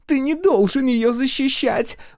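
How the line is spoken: Shrill squeal. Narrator (Russian): взвизгнула Хлоя

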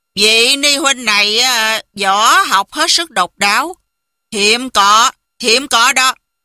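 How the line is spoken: Smiling. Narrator (Vietnamese): Kim Luân Pháp Dương mỉm cười nói

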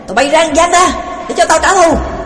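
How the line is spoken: Shouted. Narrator (Vietnamese): Nó hét

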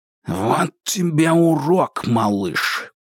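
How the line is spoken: Hissed. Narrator (Russian): прошипел Кинг

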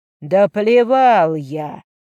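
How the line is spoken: Growl. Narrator (Russian): прорычал Эйта

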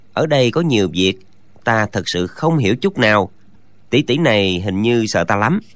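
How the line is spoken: Muttering. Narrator (Vietnamese): chàng lẩm bẩm

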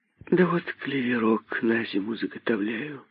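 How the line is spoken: Sighing reply. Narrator (Russian): ответила она, вздохнув

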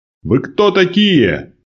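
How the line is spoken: Shouted. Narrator (Russian): крикнул

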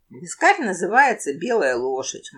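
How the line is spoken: Gloomy flat statement. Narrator (Russian): мрачно констатировал краб

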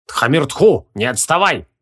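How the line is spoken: Old man's sharp shout. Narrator (Russian): прикрикнул на мальчишку старец с жезлом

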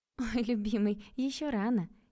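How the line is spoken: Playful laughing. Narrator (Russian): я рассмеялась игриво

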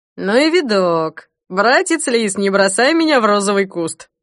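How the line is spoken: Clumsy joke, then laughter. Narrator (Russian): Неумело сострил Смирнов и расхохотался собственной шутке

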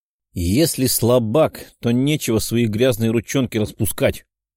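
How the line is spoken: Furious grumbling. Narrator (Russian): проворчала взбешенная Екатерина

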